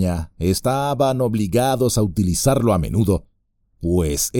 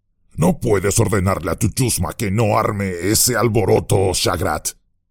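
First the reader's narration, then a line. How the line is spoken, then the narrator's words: Growled. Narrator (Spanish): gruñó uno de ellos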